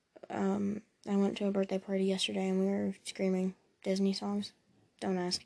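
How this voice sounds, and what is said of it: Slightly scratchy voice. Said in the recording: “my voice is kind of a little scratchy. That's why I've been coughing.”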